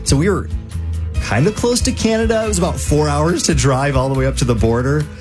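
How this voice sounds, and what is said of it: Minnesotan accent. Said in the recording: “I kind of have a Minnesotan accent.”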